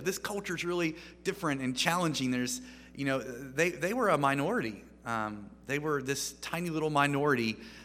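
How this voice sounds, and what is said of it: American accent. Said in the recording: “In America, where I'm clearly from, based on my accent”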